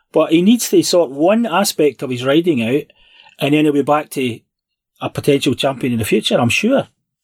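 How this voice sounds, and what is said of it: Gruff Scottish accent. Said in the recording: “that gruff Scottish accent”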